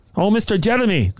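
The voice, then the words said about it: Poor put-on Brazilian accent. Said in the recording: “That's my Brazilian accent. ... That's not very Brazilian.”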